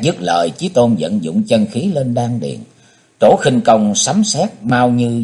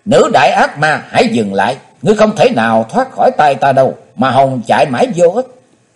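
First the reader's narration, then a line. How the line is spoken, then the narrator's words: Loud shout. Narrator (Vietnamese): Chí Tôn hét to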